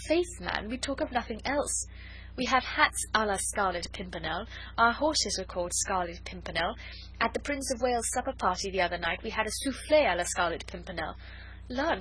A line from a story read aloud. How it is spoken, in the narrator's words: she added gaily